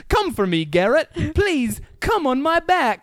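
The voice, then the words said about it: Bad put-on British accent. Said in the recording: “like a bad British person ... talking in a British fucking accent”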